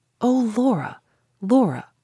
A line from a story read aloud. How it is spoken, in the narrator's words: I said, not angrily, not reprovingly, with nothing but sorrow in my voice, and nothing but sorrow in my heart